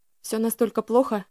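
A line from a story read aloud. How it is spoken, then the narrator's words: Strained forced words. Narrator (Russian): выдавила я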